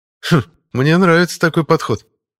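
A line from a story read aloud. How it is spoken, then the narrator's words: Amused snort. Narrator (Russian): хмыкнул Пашка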